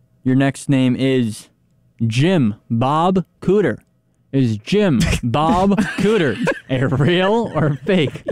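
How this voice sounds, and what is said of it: Put-on Southern accent. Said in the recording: “You're saying it with a southern accent, too.”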